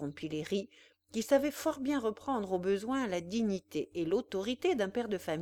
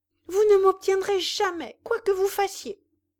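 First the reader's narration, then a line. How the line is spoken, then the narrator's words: Young woman exclaiming. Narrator (French): s'écria la jeune fermière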